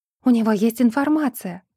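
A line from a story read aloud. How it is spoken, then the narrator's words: Exclaimed. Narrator (Russian): воскликнула Кэтлин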